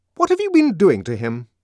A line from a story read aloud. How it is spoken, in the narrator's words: demanded fiercely